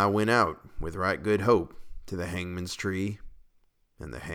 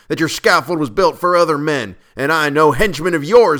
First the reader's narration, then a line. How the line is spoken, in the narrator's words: I cried